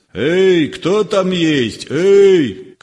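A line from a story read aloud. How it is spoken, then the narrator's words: Shouting. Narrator (Russian): кричал Щукин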